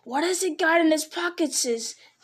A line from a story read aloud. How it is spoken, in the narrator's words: he heard the hiss loud behind him